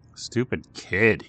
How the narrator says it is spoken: he muttered to himself

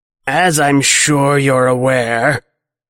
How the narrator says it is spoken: Clocks rasps

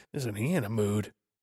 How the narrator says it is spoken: Someone in the audience muttered

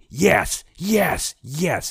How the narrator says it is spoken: yelling out loud at the screen, fully invested

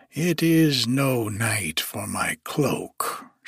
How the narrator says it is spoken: she muttered

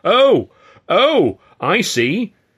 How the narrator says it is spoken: Ed shouted

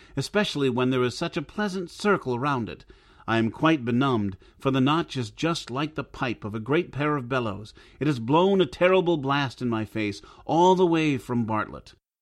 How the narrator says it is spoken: cried he

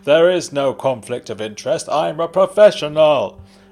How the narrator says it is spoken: it's the previous detective's brother, and he's yelling

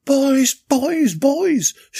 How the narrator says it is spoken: shouted Natasha in reply

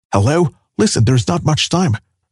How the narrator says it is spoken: Jackie whispered

